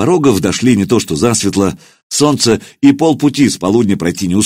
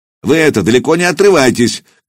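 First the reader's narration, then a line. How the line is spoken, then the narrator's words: Shout after, sergeant. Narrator (Russian): крикнул вслед старшина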